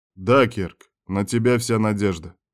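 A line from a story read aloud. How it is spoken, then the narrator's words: Serious agreement. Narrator (Russian): без шуток согласился шеф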